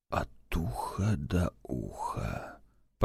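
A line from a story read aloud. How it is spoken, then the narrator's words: Whisper. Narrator (Russian): прошептал Валдаев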